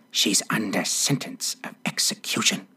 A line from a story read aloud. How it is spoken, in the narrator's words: He looked anxiously whispered